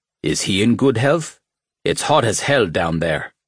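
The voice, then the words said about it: Gravelly voice, thick Mexican accent. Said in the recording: “His voice was gravelly, and his English was laced with a thick Mexican accent.”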